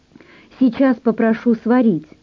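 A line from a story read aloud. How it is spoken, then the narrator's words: Joyful. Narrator (Russian): радостно предложила Оля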